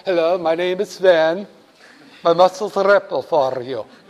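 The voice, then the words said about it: Put-on Swedish accent. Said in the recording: “she teaches you how to have a Swedish accent.”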